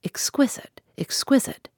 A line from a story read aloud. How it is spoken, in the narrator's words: Godfrey ... singing out softly